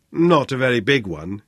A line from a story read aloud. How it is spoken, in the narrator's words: he said